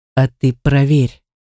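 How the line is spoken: Calm suggestion. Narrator (Russian): спокойно предложил

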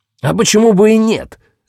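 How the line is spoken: Barking. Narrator (Russian): рявкнул

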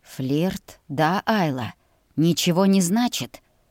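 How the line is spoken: Hoarse rasp. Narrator (Russian): хрипел он севшим голосом

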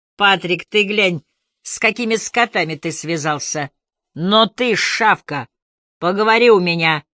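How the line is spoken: Sharp shout. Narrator (Russian): прикрикнул Бруссард

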